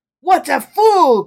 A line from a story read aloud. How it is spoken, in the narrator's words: cried Napoleon disdainfully